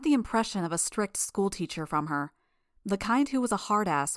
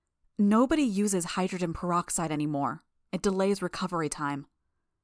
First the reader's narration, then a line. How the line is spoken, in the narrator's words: Her tone was almost disparaging as she said